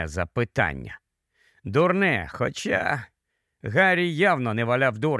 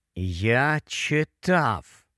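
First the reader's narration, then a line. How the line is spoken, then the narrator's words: Slow, strained speech. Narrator (Ukrainian): повільно заговорив Гаррі, вичавлюючи із себе слова і намагаючись не рухати м'язами живота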